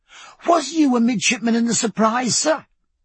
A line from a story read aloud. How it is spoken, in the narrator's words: cried young Callow, amazed